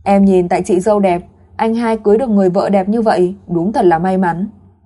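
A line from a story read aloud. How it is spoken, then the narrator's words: Smiling. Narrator (Vietnamese): Tử Mặc ... mỉm cười nói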